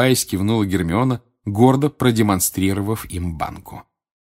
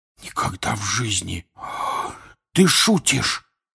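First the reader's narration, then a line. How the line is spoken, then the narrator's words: Whisper. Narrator (Russian): прошептал Рон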